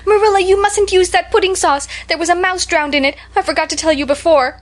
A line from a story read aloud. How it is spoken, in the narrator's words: I just stood up in my place and shrieked out